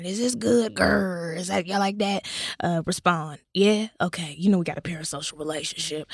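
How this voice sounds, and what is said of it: Put-on raspy voice. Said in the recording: “Y'all like this raspy voice? I'm trying to give y'all something different. ... I'm going to stop talking like this now.”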